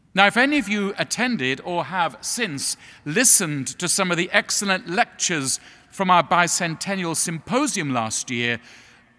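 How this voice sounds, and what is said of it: English accent. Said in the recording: “as you know from my accent, in England, where I come from”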